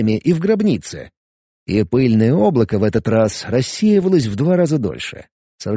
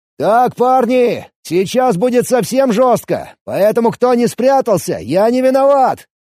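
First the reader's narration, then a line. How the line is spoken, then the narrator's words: Shout. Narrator (Russian): крикнул я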